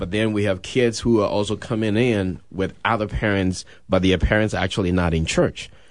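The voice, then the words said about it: Ghanaian West African accent. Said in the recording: “You have such a beautiful accent, right? You're from Ghana. ... the accent you're hearing, he's from Ghana originally.”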